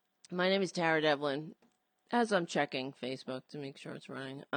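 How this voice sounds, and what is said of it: Hoarse, strained voice. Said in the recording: “As you can hear, I'm losing my voice.”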